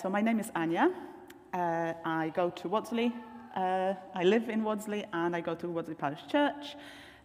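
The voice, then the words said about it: Polish accent in English. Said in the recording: “you can probably tell by now from my accent, I sound a little bit different. I'm not British. I come from Poland. ... The accent stays.”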